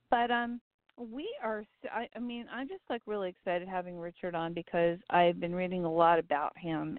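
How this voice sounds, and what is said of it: Rough, strained sore-throat voice. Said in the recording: “Excuse my voice. ... I'm dealing with that nasty little throat thing.”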